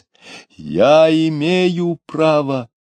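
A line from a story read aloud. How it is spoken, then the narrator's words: Quieter. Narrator (Russian): продолжал уже не так громко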